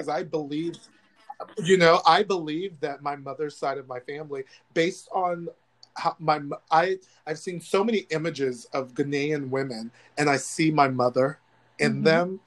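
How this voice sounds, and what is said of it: Choked up, emotional voice. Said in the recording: “this talking about this subject gets me a little choked up”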